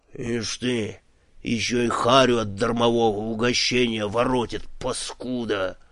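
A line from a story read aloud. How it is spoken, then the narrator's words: Angry mutter. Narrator (Russian): злобно буркнул Пурих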